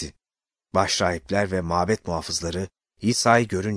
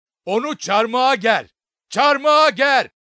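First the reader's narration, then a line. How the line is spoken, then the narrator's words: Crowd shouting. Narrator (Turkish): diye bağırdılar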